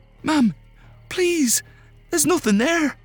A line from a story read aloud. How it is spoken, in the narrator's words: Martha cried out